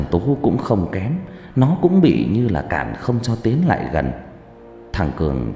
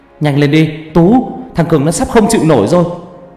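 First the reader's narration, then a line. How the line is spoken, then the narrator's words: Loud shout. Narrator (Vietnamese): Thằng Dũng hét to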